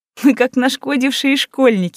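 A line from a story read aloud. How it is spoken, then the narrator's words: Forced out through tears. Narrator (Russian): выдавила сквозь слёзы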